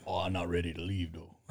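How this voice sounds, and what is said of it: Impression of Coach O. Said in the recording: “give me a Coach O real quick.”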